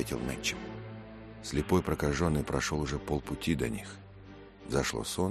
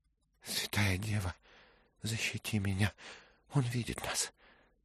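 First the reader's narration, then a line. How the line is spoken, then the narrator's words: Weak voice. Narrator (Russian): слабым голосом сказал Мэтчем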